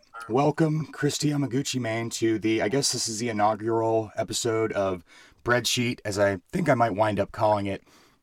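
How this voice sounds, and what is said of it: Scratchy voice. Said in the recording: “You can hear my voice is still kind of scratchy.”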